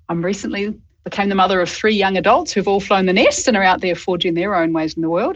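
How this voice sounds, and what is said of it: Mixed Australian and New Zealand accent. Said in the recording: “I'm a proud dual citizen of Australia and New Zealand. So for those accent nerds out there, you can pick both.”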